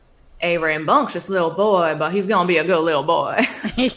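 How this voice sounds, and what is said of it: Southern twangy Texan-style accent. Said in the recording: “her accent is like possibly like Texan. Like it's like a southern kind of twangy ... Good accent. ... That's my best impression of her ... Cheers to that accent.”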